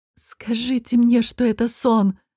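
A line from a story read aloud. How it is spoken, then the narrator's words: Moaned. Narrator (Russian): простонала Гота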